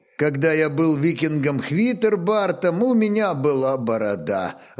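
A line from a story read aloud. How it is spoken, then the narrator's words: Laughing reply. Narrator (Russian): отвечал, смеясь Ольг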